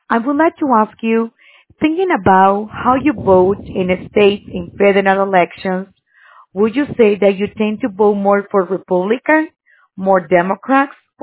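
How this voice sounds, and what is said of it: Speaks with a noticeable accent. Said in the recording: “I love your accent. I just want to say that. I just love your accent.”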